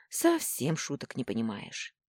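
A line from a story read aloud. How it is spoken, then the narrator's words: Heavy sigh. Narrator (Russian): тяжело вздохнула я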